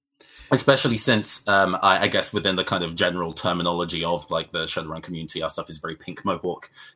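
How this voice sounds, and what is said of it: British accent. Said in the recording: “As you can tell by my voice, I'm from the UK.”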